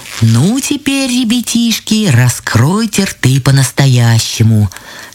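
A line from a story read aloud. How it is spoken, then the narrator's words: Plain. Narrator (Russian): сказали грибы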